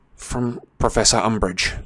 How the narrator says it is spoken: muttered Harry, not meeting McGonagall's beady, square-framed eyes

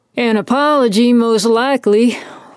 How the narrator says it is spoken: Wallace grumbled

